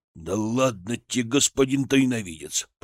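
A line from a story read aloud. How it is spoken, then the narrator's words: Grumbling. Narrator (Russian): проворчал он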